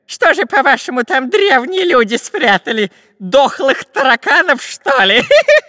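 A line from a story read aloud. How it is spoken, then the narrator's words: Laughing robber. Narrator (Russian): Засмеялся разбойник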